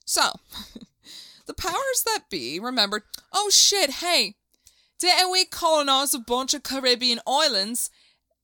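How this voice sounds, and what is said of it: Muddled attempt at British accent. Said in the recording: “This not British, is it? Is that Australian? ... I don't know what accent that was.”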